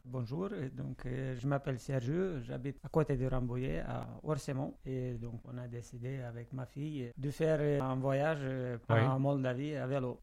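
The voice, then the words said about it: Moldovan accent speaking French. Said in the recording (French): “votre bel accent, monsieur, vous êtes d'origine moldave ... Je suis d'origine moldave ... C'est pour ça que j'ai l'accent ... l'accent il est resté”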